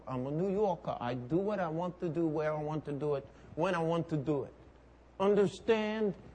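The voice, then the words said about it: Put-on Brooklyn accent. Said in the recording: “I'm working on my Brooklyn accent.”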